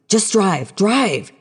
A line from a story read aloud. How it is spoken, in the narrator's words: he screamed